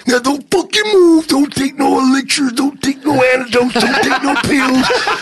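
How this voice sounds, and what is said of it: Imitates another person's voice. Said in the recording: “great Macho Man impression”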